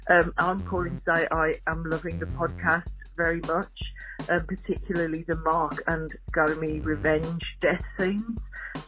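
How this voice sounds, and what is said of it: British accent, not Australian. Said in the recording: “I live in Australia, but I'm British, which is why I don't have an Australian accent.”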